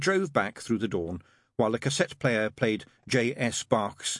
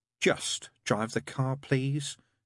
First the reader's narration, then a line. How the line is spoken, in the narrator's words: said wearily